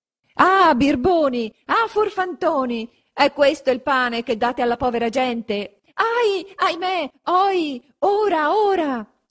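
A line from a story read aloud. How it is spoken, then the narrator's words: Shouted from below. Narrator (Italian): s'urlava di giù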